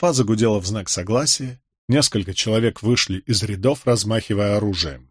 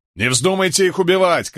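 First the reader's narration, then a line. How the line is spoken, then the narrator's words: Shouting. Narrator (Russian): крикнул Кэт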